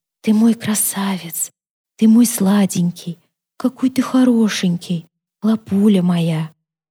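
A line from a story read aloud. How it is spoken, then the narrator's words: Barely audible whisper. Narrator (Russian): Они чуть слышно шептали ему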